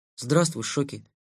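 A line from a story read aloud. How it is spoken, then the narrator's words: Hurried. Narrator (Russian): торопливо сказал Лэн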